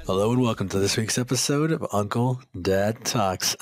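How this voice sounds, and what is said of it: Smooth late-night radio DJ voice. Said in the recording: “My little DJ, my radio voice? ... It's like your late night R&B hour on the hip hop station.”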